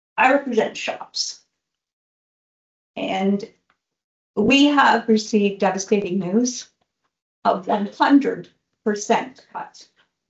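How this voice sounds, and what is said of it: Emotional voice close to cracking. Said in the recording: “trying to do this without my voice cracking.”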